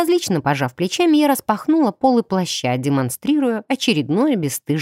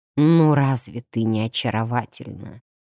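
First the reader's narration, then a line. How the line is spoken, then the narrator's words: Soft whistling reply, man. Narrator (Russian): тихо присвистнул мужчина в ответ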